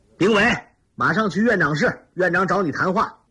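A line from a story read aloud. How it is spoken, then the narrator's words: Shout from outside. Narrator (Chinese): 窗外有人喊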